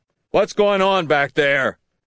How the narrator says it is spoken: Warwick shouted from somewhere behind them

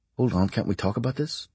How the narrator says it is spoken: The GI begins to plead softly with the German

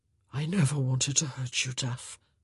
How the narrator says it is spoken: he said hoarsely

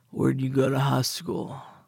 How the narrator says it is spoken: He slurred like his tongue was heavy

